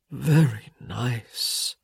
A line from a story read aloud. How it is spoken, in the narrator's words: he purred